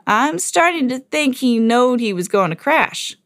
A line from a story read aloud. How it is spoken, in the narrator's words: giggled